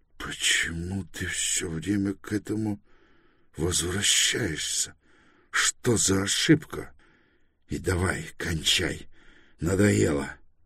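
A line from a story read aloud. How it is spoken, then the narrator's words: Strained choked voice. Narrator (Russian): Торрен сдавленным голосом спросил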